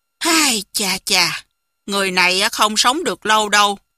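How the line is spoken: Sighing. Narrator (Vietnamese): Hồng Thất Công thở dài nói

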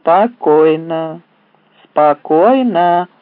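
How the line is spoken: Monotone repetition. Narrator (Russian): монотонным голосом повторял Феликс

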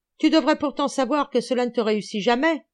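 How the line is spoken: Shouting. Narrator (French): criait-il

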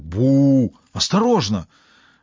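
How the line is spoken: Exclamation. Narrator (Russian): воскликнул Робинсон

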